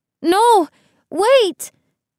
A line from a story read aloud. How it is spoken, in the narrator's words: cried